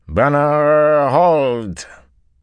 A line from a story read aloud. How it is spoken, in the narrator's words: the familiar slurred drawl of the Seanchan